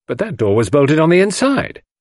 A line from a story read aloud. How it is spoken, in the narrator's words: I cried